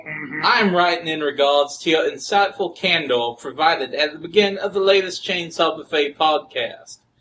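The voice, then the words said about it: Put-on southern US accent. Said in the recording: “I'm gonna try a southern accent for this one.”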